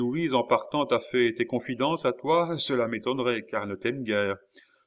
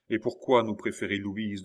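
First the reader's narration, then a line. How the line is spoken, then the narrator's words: Sour question. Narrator (French): demanda d'un ton aigre Madame Sophie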